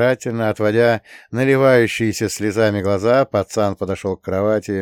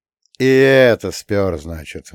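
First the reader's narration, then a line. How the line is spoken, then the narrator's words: Sighing. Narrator (Russian): вздохнул я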